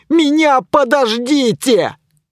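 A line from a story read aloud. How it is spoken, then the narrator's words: Shouting. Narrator (Russian): кричал я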